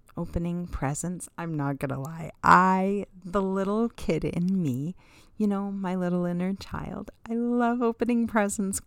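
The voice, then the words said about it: Giddy, happy excited voice. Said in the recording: “I kind of get giddy and happy, as you can hear in my voice.”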